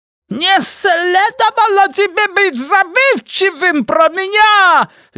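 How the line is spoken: Shrill squeal. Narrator (Russian): визжал Ги, совсем как Йода

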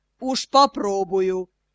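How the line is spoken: Deep bass voice. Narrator (Russian): басом отозвался бородач

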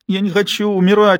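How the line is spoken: Whimper. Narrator (Russian): хныкал Калли

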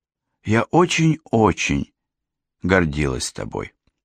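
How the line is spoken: Very quiet. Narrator (Russian): очень тихо добавила

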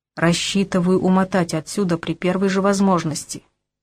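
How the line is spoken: Grumbled reply. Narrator (Russian): буркнул я в ответ

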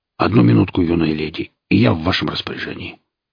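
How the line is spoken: Angry snort. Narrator (Russian): Сталкер сердито фыркнул и добавил

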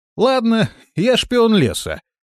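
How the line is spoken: Laughing. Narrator (Russian): рассмеялся я

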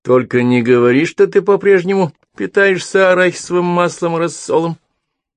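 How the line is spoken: Amused snort. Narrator (Russian): хмыкнул Гидеон

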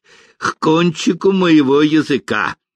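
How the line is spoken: Angry, regretful. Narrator (Russian): сердито ответил крестьянин, сожалея о предложении, сделанном чужаку

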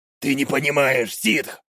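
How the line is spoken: Growling. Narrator (Russian): прорычал вояка

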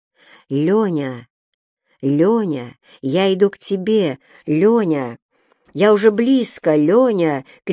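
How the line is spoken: Shouting close by. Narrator (Russian): кричала она ему совсем рядом

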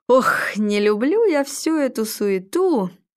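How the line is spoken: Joyful. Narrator (Russian): радостно сказал

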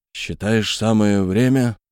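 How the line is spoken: Suddenly rude question. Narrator (Russian): спросил неожиданно грубо

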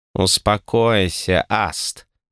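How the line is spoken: Catlike purr. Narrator (Russian): Промурлыкала девушка-зверолюд с кошачьей мордой по имени Варра

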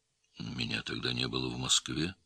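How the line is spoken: Quiet. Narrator (Russian): тихо сказал Цапов

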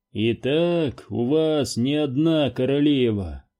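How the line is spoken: Grim declaration. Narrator (Russian): мрачно заявил Уилкс

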